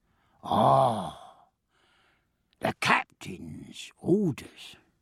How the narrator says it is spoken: said Davies, and he sighed with relief

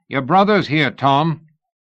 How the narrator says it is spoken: The guard shouted

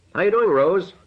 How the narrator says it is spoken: Martin said loudly

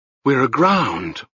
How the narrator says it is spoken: one of the prisoners whispered, but the silence closed in on his voice

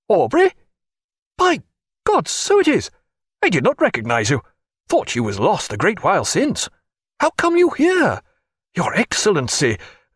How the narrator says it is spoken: a small, round, brisk man cried

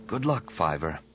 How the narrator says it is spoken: Anakin whispered

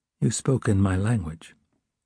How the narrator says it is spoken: controlling himself, he said calmly

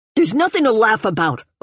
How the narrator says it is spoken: Otora said fiercely

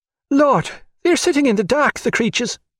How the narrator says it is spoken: cried Bridie Donahue

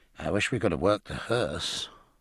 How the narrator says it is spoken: muttered Jack

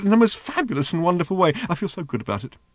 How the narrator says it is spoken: squealed the little robot

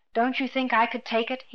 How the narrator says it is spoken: He asked tightly

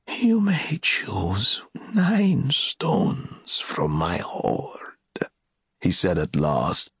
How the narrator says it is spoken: his voice hissing and whining in his long jaws

